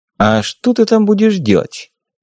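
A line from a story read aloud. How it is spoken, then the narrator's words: Very gentle question. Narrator (Russian): Как можно более мягко поинтересовался я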